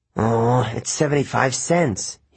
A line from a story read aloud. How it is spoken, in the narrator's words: he grumbled